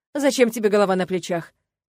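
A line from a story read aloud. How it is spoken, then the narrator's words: Snide question. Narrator (Russian): ехидно поинтересовался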